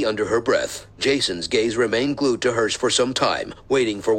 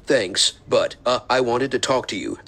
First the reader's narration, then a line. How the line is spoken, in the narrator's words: said Jason nervously